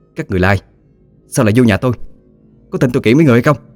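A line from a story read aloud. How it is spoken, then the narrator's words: Aggressive yelling. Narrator (Vietnamese): Bà Diễm hùng hổ quát tháo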